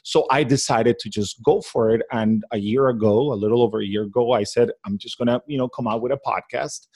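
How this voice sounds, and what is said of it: Non-native English accent. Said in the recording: “English is not my native language ... my accent”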